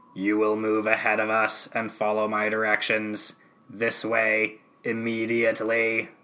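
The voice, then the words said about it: Dalek voice impression. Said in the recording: “Benny gets to hear my impression ... a comparison of mine versus the actual Dalek”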